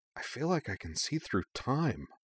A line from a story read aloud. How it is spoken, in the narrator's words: murmured